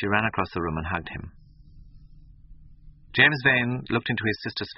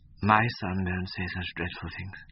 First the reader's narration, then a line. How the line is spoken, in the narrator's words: murmured Mrs